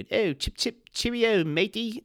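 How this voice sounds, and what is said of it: Put-on British accent, not very good. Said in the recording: “I was going to try to do a British accent. I'm not very good.”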